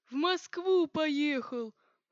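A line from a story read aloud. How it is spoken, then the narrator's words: Imposing bass voice. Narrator (Russian): пробасил внушительно прохожий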